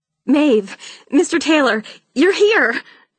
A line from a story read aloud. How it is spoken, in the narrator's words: Charlotte cried